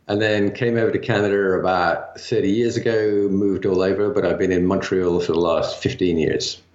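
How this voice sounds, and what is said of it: English mid-Atlantic accent. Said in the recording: “you don't sound very Canadian ... I'm mid-Atlantic ... born and raised and bred in England”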